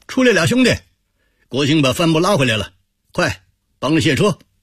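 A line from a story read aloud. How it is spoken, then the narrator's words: Shouting. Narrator (Chinese): 张西贵向大堂喊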